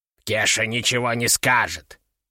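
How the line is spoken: Muttered grumble. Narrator (Russian): пробурчал он, не глядя на меня

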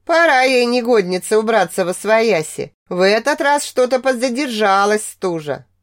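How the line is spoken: Old woman's rambling grumble. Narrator (Russian): Старушка, как обычно, начала ворчать, перескакивая с темы на тему

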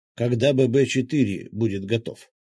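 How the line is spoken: Plain. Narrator (Russian): спросил Паша

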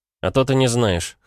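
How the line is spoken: Amused snort. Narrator (Russian): хмыкнул

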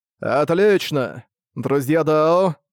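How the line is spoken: Solemn old man. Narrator (Russian): торжественно молвил старый Жулай

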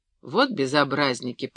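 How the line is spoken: Muttered. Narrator (Russian): пробормотал священник

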